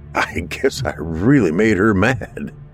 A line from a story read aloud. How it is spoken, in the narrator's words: I chuckled